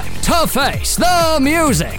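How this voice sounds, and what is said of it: X Factor voiceover man impression. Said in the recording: “my X Factor Man impression ... That was pretty good. ... That was really good, actually.”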